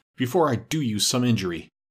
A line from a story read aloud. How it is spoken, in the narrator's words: gasped